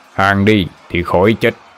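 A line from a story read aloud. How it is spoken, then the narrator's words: Barked command. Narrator (Vietnamese): Hữu quát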